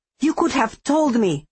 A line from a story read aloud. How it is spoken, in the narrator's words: I shouted, still shaking with the horror of it